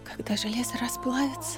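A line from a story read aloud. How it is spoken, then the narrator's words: Quiet, tearful. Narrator (Russian): тихо произнесла Питара, голубые глаза которой были полны слез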